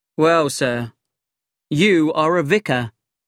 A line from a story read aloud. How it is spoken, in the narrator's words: said